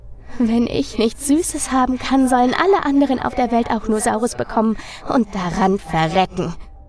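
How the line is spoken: Girl giggling. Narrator (German): Das Mädchen kicherte wieder und antwortete

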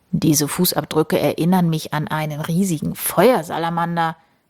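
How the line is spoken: Murmured. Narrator (German): murmelt

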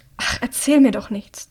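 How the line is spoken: Hissed. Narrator (German): zischt Hamish

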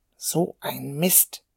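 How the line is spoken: Muttering. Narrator (German): murmelte er

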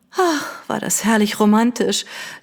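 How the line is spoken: Sighing. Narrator (German): seufzte Lady Catherine

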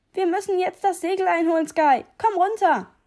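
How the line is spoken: Shouted. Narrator (German): schrie mir Nedel zu

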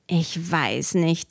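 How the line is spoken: Murmur. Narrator (German): murmelte Robert

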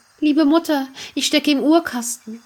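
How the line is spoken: Small fine voice calling. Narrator (German): rief eine feine Stimme

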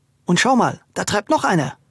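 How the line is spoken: Calling out. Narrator (German): rief

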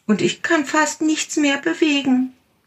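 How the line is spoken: Small tiger calling out. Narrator (German): rief der kleine Tiger

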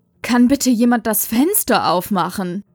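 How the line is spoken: Giggling. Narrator (German): Maria kicherte

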